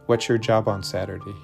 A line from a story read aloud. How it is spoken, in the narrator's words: he asked